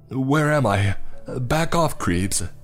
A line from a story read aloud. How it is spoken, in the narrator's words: he said in a desperate voice